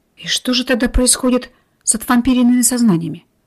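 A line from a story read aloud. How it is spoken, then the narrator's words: Muttering. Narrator (Russian): пробормотал Семен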